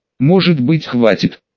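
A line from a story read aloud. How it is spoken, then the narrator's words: Quiet question. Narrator (Russian): тихо спросила Пелагея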